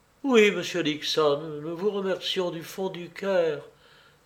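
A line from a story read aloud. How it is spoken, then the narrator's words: Woman's sobbing voice. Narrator (French): ajouta la femme d'une voix sanglotante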